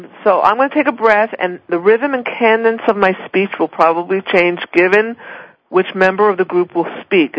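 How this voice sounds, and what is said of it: Philadelphia New York accent. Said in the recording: “my Philly, New York accent does not go away ... I'm a Philly girl. It stays.”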